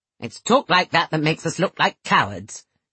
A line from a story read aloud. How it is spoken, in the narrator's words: she said sharply